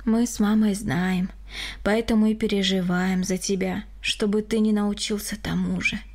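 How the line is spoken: Sigh. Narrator (Russian): вздохнул Григорий

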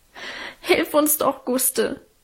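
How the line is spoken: Sobbing. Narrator (German): schluchzte Alvine

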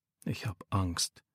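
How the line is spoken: Quiet. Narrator (German): sagt Micha leise

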